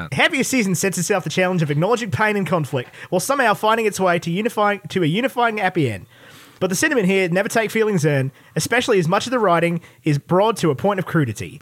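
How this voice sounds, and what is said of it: Put-on accent reading a review. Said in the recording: “You doing the accent? ... You have to, 100%.”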